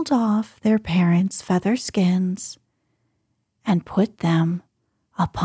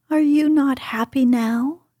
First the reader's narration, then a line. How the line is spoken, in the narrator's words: they cried